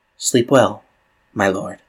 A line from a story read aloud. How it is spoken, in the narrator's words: she whispers